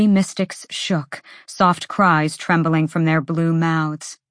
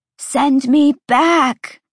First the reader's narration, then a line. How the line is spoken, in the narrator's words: she screamed, the words barely more than a hoarse screech